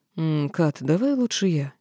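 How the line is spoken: Hesitant suggestion. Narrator (Russian): неуверенно предложил Долориец

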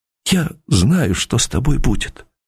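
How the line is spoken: Barely audible. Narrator (Russian): чуть слышно сказала Эльга Борисовна

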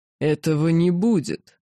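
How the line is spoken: Furious growl. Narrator (Russian): разъяренно прорычал Арахандар

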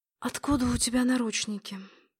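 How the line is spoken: Sleepy whisper. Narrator (Russian): прошептала я сквозь дрему

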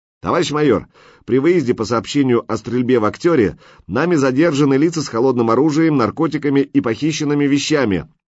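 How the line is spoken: Loud report. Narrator (Russian): громко доложил лейтенант

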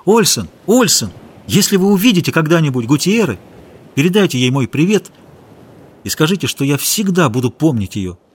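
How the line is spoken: Shout. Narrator (Russian): крикнул

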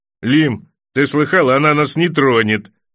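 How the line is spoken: Laughing. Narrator (Russian): засмеялся рыжий лучник

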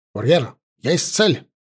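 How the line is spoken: Sudden curt shout. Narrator (Russian): вдруг отрывисто выкрикнул Велька

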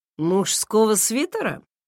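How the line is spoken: Snorting. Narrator (Russian): хмыкнул он

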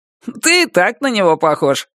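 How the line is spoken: Objecting. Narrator (Russian): возразил Кенни

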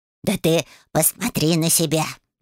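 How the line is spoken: Snorted. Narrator (Russian): фыркнул кот

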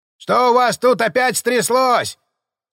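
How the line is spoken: Man shouting. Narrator (Russian): крикнул усатый мужик

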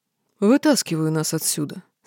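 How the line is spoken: Calm reply. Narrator (Russian): спокойно ответил Рыжий

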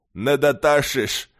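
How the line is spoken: Skeptical objection. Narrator (Russian): скептически возразил горец

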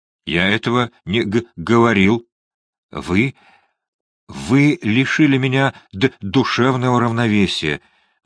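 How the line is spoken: Stammering babble. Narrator (Russian): залепетал Фандорин, заикаясь больше обычного

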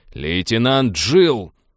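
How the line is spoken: Barked over intercom. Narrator (Russian): рявкнул капитан в интерком

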